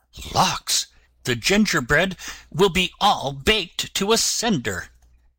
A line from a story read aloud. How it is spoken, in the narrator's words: she dropped her broom in a hurry, and exclaiming